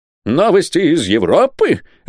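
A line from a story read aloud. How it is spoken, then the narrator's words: Exclaiming. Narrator (Russian): воскликнул он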